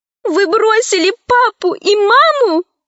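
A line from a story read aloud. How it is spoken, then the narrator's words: Tearful question. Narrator (Russian): спросила сквозь слезы Лара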